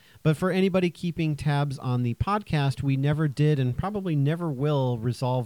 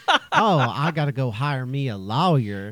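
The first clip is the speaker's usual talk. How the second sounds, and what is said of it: Put-on Southern drawl. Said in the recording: “you only say lawyer if you have a Southern drawl”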